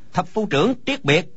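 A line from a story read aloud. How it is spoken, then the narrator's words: Soldier calling out. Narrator (Vietnamese): Quân sĩ kêu lên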